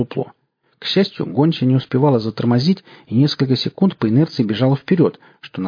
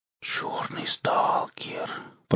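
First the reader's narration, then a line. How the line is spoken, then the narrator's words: Whisper. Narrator (Russian): прошептал Семен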